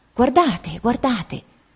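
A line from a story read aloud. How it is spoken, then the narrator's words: Quiet exclamation. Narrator (Italian): Don Casimiro esclamando piano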